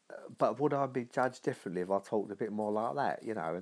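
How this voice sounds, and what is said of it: London accent. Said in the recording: “I did actually have a London accent. I'd actually picked up a London accent. ... I'd have definitely picked up a London accent”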